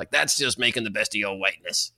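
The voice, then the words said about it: Imitates another person's voice. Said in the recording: “I'm sure that was a really good impression too.”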